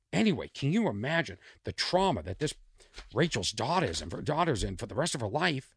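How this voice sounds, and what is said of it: Boston accent. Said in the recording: “There's my Boston accent.”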